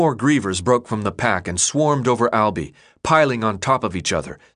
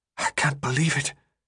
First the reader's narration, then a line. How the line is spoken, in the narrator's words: Newt whispered